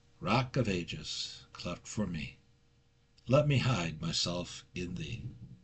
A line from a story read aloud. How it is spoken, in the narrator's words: dad started to sing softly